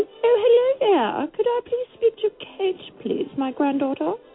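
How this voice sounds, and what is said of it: Bad put-on elderly woman accent. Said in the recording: “Your accent sucked ... I'm not used to playing old 80-year-olds.”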